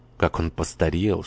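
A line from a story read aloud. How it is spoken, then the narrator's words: Whisper. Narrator (Russian): шепнула Форова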